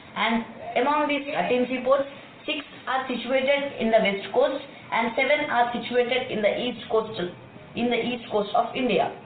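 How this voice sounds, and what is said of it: Thick Indian accent, young boy. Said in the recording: “he's got a pretty thick accent... a 12 or 13-year-old Indian boy”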